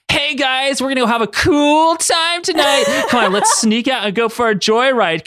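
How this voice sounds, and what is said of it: Party dude character voice. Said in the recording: “I was going to kind of do a party voice. ... crazy voices from me every week.”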